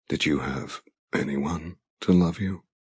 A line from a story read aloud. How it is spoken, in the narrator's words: He asks in a low voice